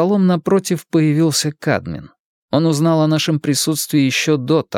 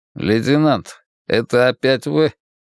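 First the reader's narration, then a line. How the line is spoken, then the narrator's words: Displeased mutter. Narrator (Russian): недовольно пробурчал Кадмин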